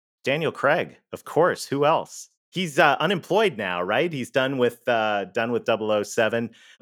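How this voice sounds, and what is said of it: Canadian accent. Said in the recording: “I'm Canadian. You may have heard that in the accent.”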